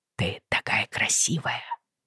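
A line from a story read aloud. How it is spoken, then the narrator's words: Whisper. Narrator (Russian): прошептал Джо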